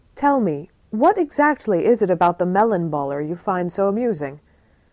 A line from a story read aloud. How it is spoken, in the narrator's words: Ray bursts out laughing again, in rich, deep chuckle